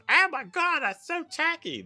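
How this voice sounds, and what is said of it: Put-on Monty Python-style British accent. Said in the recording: “what accent was that? ... I think it was Monty Python.”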